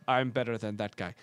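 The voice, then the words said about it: Bad put-on Russian accent. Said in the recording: “That's a terrible Russian accent.”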